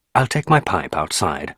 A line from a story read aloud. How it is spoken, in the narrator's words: I said